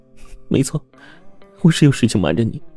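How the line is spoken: Aggrieved crying. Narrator (Chinese): 唐西 突然委屈的哭了起来

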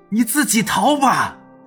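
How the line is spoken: Trembling, desperate hoarse shout. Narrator (Chinese): 面具男的声音几乎带着一丝颤抖，绝望的情绪蔓延他的整颗心，嘶声对着齐之遥大喊

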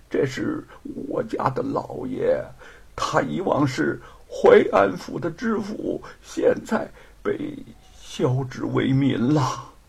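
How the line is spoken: Trembling, concerned. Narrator (Chinese): 面带关切，便颤声的说

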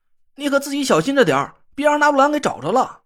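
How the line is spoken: Hurried shout. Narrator (Chinese): 我赶紧又喊了一声

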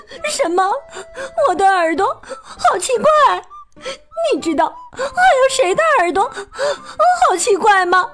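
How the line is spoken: Crying. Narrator (Chinese): 翠翠哭着说

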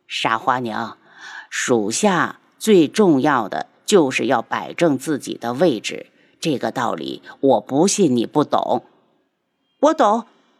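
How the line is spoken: Sighing. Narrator (Chinese): 他叹息

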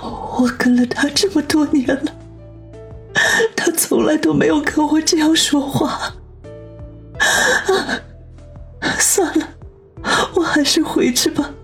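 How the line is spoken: Sobbing, whimpering. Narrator (Chinese): 兰姨呜咽的哭道

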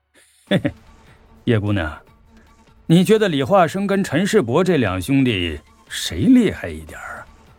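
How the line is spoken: Low-voiced question. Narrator (Chinese): 司徒安声音低低的问我

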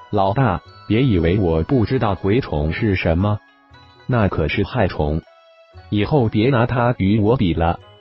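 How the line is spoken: Teasing, laughing. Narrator (Chinese): 浩然笑着调侃一号道

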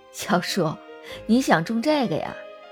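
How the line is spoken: Laughing. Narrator (Chinese): 张奶奶笑了

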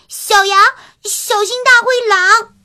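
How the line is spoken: Hurried shout. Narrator (Chinese): 橘子老虎忙喊道

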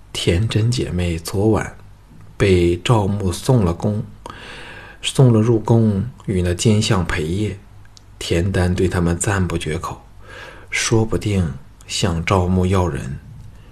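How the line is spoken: Low, confidential voice. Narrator (Chinese): 赵志低声说

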